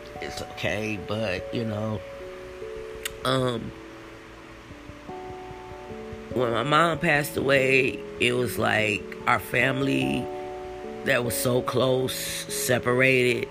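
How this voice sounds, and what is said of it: Slightly teary, emotional voice. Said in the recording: “Excuse me if you guys hear me getting a little teary-eyed a little bit.”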